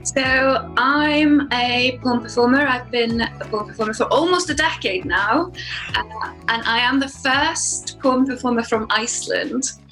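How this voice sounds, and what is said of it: Icelandic-accented English. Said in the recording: “I'm sensing the accent”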